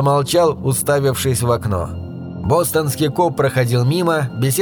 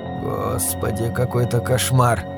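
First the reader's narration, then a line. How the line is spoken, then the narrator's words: Muttering. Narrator (Russian): пробормотал Пирсон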